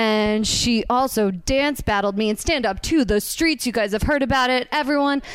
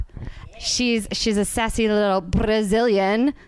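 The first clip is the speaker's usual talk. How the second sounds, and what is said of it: Bad put-on Brazilian accent. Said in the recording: “That was a terrible accent. That was so bad.”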